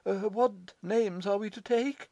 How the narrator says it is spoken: inquired the latter, anxiously

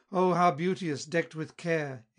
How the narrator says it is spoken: exclaimed

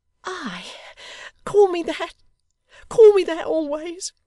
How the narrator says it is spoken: exclaimed the locksmith's little daughter

